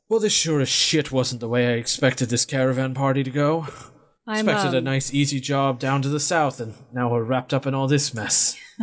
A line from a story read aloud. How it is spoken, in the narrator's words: Sarge lets out a big sigh and says